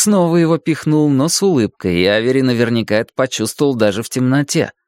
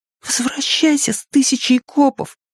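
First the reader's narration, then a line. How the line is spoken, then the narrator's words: Muttered. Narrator (Russian): пробормотал Авери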